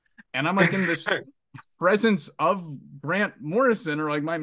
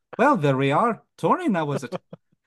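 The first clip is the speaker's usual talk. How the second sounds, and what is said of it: Scottish accent impression of Grant Morrison. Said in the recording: “In the very, very notable Scottish accent, I hear”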